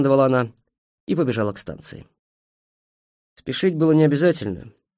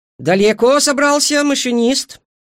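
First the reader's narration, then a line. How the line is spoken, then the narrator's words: Shouted. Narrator (Russian): крикнула Эйжел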